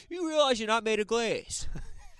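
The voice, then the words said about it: Poor New York accent impression. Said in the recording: “It's not a good New York accent”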